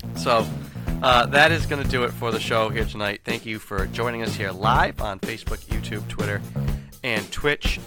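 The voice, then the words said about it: Worn-out, strained hoarse voice. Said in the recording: “My voice is just about shot.”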